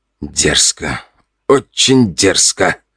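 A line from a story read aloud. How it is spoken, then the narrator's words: Man growling. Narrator (Russian): рычал мужчина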